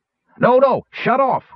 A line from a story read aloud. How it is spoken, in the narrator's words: Wingover yelled